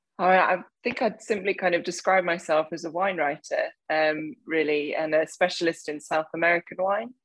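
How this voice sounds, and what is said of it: English accent. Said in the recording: “my accent would probably very quickly give away that I'm not South American and was born in Hampshire in England”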